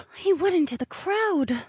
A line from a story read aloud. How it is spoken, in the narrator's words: Ravi muttered